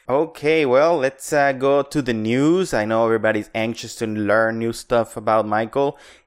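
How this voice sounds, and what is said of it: Speaks with a noticeable accent. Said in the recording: “that lovely accent of yours”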